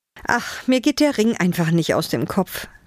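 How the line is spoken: Sighed. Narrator (German): seufzte Eva

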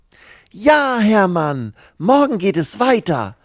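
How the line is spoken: Calling out. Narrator (German): ruft Lucy

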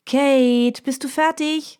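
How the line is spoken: Calling from another room. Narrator (German): ruft Mina aus ihrem Schlafzimmer

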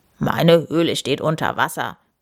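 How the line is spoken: Grunted. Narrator (German): grunzt Edward

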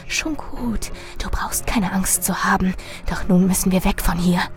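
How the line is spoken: Hissed. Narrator (German): Marilyn zischte

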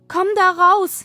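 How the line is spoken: Called out. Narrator (German): rief Käthe

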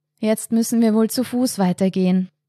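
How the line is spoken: Sigh. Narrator (German): seufzte Lukas

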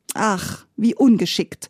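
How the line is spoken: Sighing. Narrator (German): seufzte Maume

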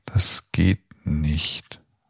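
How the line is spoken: Slow, fading quieter. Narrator (German): antwortete Bernhard langsam und immer leiser werdend

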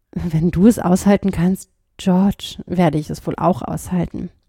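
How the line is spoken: Said softly. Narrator (German): sagte sie leise

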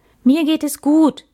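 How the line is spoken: Called out. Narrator (German): rief Max

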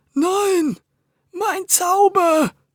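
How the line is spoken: Groaning. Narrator (German): stöhnte der Zauberer

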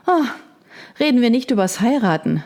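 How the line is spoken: Sighing. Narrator (German): seufzte Margaret

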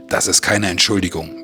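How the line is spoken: Barking. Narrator (German): bellte Nanook

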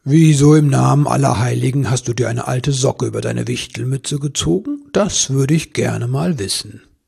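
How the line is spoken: Amused questioning. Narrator (German): Der Weihnachtsmann stieß wieder ein tiefes Lachen aus, dann zog er dem Wichtel sanft die Socke vom Kopf und fragte

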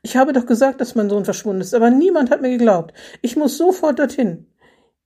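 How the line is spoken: Exclamation. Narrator (German): rief Renate Schiffner aus

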